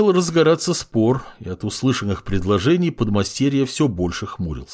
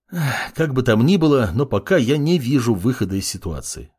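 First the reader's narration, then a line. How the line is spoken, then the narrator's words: Sighing. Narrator (Russian): вздохнул маг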